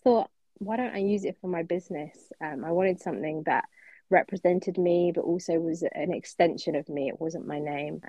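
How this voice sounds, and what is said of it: A distinctive regional accent. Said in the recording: “I love your accent. I could listen to you talk all day.”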